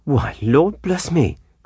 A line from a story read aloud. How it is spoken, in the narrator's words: cried the housekeeper